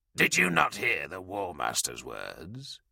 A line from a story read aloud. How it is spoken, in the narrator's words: Delarax replied quietly, a sneer twisting his lips